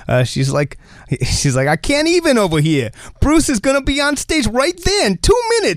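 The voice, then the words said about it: Put-on New Jersey accent. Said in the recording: “I can do a Jersey accent because I'm from Jersey”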